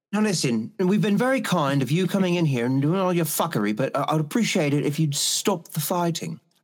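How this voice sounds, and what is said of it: Put-on British accent. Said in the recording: “Do a British accent”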